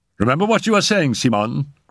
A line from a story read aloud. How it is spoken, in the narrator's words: cried Raoul